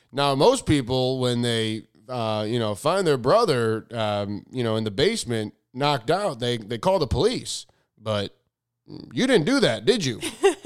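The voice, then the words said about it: Imitates another person's voice. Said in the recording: “Bill Hader does this great impression of the Dateline guy ... That's my impression of Bill Hader's impression of Dateline guy”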